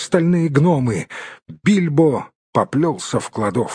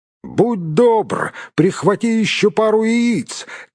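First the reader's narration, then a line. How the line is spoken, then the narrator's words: Shouting after someone. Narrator (Russian): крикнул ему вслед Гэндальф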